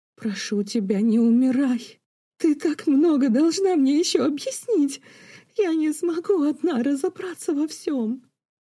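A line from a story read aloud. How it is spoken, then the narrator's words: Sobbing, composure lost. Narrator (Russian): Разрыдалась она, вмиг растеряв привитые Дериком выдержку и хладнокровие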